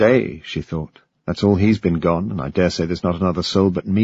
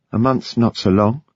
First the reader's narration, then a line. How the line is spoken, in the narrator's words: Ida said sadly